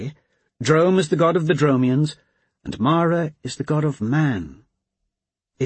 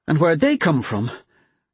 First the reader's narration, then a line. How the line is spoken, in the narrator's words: She sighed